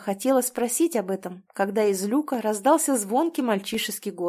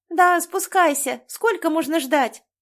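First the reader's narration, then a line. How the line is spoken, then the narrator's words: Girl shouting. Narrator (Russian): А это уже девочка крикнула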